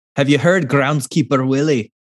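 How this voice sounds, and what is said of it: Put-on Scottish accent. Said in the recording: “Scotland, just without the cool accent ... That's my best accent.”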